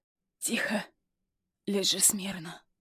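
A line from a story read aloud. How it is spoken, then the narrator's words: Hoarse command. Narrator (Russian): хрипло велит Юсупов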